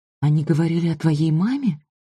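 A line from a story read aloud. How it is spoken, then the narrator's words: Trembling voice. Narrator (Russian): спросила Лидия дрожащим голосом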